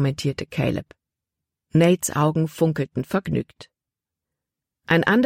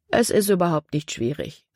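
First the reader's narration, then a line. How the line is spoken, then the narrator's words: Plain. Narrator (German): sagte Nate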